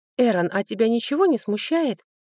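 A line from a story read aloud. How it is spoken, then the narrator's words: Indignant exclamation. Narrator (Russian): Возмущенно воскликнула я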